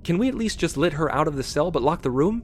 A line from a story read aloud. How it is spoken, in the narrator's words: Julian asked desperately